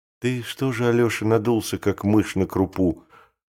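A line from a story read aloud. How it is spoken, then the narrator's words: Soft, mother. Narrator (Russian): сказала тихонько мать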